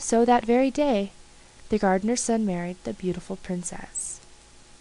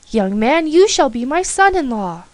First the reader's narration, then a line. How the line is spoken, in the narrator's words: cried the king